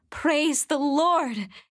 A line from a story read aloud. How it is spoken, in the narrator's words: exclaimed